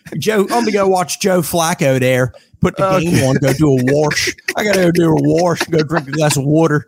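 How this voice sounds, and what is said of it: Put-on Baltimore accent, exaggerated O vowels. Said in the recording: “How do you say Josh Rutledge in a Baltimorean accent? ... it doesn't have the O sound ... There's no major vowel.”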